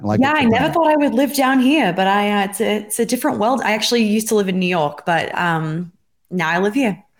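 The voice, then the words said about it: Australian accent with a lilt. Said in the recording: “lilt of an Australian accent still present”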